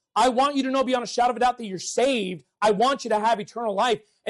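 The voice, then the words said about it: Yelling, loud preaching. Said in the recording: “why are you yelling?”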